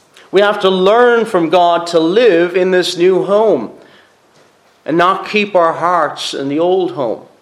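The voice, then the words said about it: Irish Cork accent. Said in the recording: “You probably notice I have a different accent. ... I'm not from here, I'm originally from Cork.”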